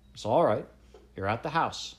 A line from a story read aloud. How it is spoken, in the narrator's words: said Nat